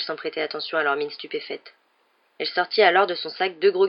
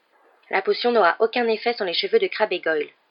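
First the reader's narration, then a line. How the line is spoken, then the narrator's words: Stern tone. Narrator (French): dit-elle d'un ton sévère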